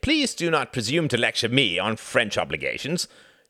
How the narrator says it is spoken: snapped Reginald

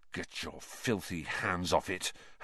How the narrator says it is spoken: Harry snarled under his breath

